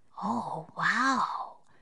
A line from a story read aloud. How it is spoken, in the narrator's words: breathed Annie